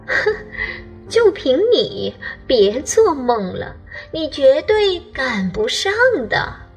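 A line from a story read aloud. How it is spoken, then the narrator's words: Crow mocking. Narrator (Chinese): 乌鸦嘲笑淘淘说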